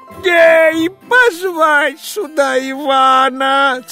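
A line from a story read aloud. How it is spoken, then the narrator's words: Hasty shout. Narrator (Russian): царь поспешно закричал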